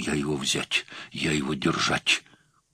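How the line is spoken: Mumbling. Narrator (Russian): только бормотал

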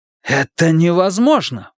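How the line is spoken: Exclaimed. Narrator (Russian): воскликнул он

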